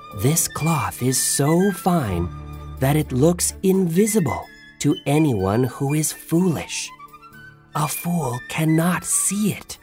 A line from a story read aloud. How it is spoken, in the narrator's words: the tailors whispered loudly